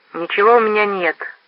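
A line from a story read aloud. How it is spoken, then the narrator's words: Sullen grumble. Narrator (Russian): угрюмо проворчал Рой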